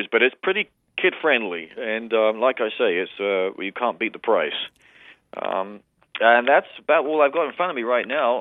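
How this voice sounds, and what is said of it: London English accent with North Dakota tinge. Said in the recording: “I detect an accent, and it's not Norwegian ... working-class, middle-class English from the London area of England mixed with more than 20 years of Grand Forks, North Dakotan ... sound like I'm from New Zealand”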